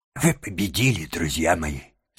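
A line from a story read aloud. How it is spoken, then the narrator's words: Trembling voice. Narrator (Russian): сказал он дрожащим голосом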